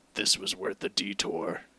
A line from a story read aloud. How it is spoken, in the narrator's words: he muttered, sneaking words through his chewing